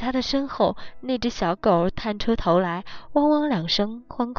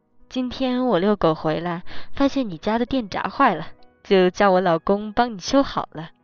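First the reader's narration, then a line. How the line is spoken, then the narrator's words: Smiling, friendly. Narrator (Chinese): 邻居笑眯眯地说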